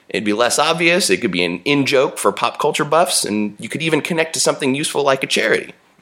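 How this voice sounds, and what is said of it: Smooth radio announcer voice. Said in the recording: “you have a great radio voice”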